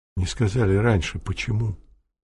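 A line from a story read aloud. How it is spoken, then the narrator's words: Whisper. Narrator (Russian): прошептал Дежков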